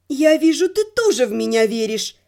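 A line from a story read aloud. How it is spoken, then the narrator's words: Gloomy. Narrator (Russian): мрачно сказала я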